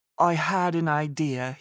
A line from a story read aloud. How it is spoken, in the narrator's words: exclaimed